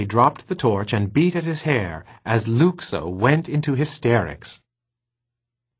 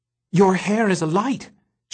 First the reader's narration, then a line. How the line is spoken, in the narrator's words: suddenly gasped